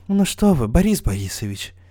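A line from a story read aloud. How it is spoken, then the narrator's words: Mumbling. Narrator (Russian): Бормочет рифмоплет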